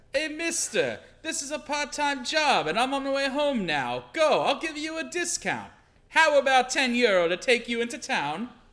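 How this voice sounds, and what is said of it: Put-on Japanese-Italian accented character voice. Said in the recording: “Speak Italian with a Japanese accent ... This voice has to develop more”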